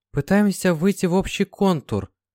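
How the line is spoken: Hesitant, uncertain. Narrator (Russian): неуверенно сказала Марьяна

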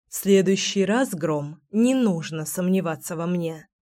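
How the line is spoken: Grumbling. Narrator (Russian): проворчала я

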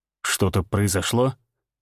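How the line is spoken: Quiet question. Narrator (Russian): тихо спросил Всеволод

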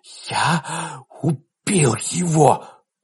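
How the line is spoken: Whisper. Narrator (Russian): прошептал Ларри

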